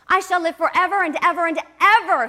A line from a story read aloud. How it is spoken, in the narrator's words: he cried grandly